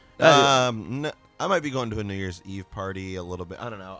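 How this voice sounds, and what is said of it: Sick-sounding voice. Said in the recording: “I've been sick, as you can hear in my voice. ... forgive my, pardon my voice here.”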